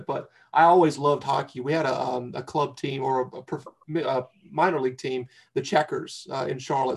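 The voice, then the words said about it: North Carolina Southern accent. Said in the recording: “I'm from North Carolina. I don't know if you can tell by the accent. I'm drinking here, so it's coming out a little bit.”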